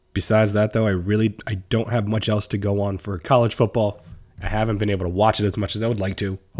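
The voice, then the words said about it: Strained, worn-sounding voice. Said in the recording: “my voice is starting to not sound the best”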